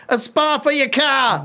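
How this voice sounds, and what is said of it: Attempted Boston accent, sounds English. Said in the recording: “using my best Boston accent ... That's you sounded English then.”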